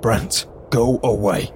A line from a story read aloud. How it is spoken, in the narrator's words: I snapped, irritably